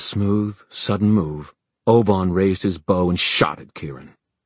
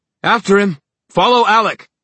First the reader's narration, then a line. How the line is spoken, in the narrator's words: shouted Maya